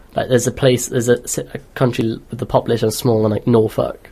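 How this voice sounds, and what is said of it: Non-English British accent. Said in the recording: “you hear my accent.”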